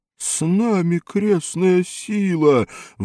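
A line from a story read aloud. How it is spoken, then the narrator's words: Distant howl from gallery. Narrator (Russian): взвыл кто-то на галерке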